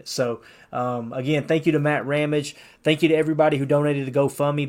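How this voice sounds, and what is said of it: Southern redneck accent. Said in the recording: “this redneck accent”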